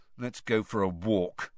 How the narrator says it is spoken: Ron muttered to Harry

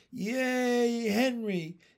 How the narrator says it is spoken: yelled the big boys

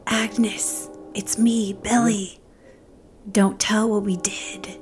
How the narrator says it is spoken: whispers

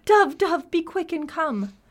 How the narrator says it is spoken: the young man, he cried

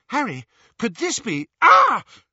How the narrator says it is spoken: Hermione screamed in pain

